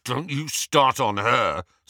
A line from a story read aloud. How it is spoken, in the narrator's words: snarled Ron